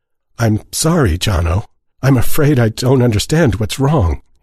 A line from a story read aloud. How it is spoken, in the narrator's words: said, hating the quaver in his voice